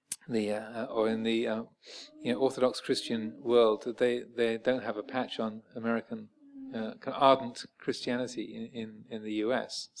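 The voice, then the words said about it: English accent with slight American twang. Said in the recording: “I have a slight American twang to my formerly pucker English accent.”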